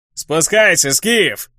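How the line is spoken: Joyful druid shouting. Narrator (Russian): радостно крикнул друид, заметив меня

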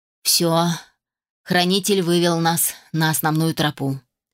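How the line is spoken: Growl. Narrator (Russian): рыкнул Адам

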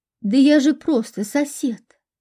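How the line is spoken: Moaning. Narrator (Russian): простонал Павел

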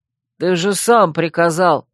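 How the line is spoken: Defensive mumble. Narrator (Russian): оправдываясь, пробормотал один

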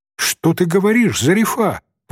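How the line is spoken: Exclamation. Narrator (Russian): воскликнула Софичка

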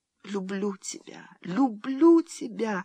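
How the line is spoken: Whispering through sobs. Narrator (Russian): сквозь рыдание шептала она

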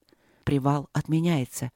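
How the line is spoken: Quiet. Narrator (Russian): тихо проговорил Трот

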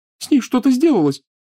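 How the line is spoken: Sobbing. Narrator (Russian): всхлипывала Лиана

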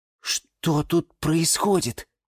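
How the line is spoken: Quiet horrified question. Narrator (Russian): тихо спросил Юра и в ужасе

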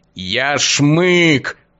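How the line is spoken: Low growl. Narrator (Russian): понижая голос, рыкнул

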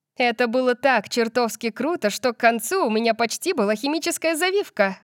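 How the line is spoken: Giggling. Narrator (Russian): Я хихикнула

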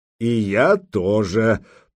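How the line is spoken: Deep voice, grinning. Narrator (Russian): пробасил Гудмунд, ухмыляясь

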